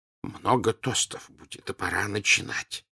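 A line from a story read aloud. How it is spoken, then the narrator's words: Whisper. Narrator (Russian): шепнул он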